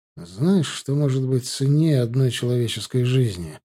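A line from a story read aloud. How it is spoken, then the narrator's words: Plain. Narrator (Russian): спросил я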